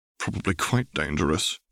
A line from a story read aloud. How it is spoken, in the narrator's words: he snorted